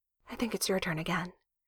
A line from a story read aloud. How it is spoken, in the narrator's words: he hears her murmur